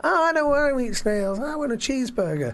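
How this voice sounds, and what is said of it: Weak Woody Allen impression. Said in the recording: “that wasn't a great Woody Allen impression”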